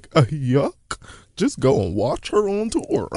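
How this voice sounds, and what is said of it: Goofy impression of a man. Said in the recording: “That goofy impression is so good ... That was excellent.”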